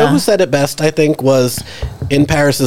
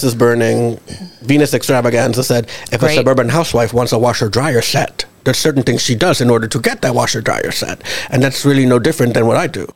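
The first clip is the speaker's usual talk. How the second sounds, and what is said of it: Impression of Venus Extravaganza. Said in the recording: “what a great impression”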